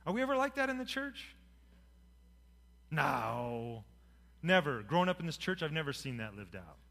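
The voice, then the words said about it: Sarcastic tone. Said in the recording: “I hope you know I'm being sarcastic.”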